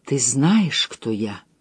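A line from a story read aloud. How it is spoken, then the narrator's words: Tender confiding whisper. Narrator (Russian): Доверительно, нежно шептал голос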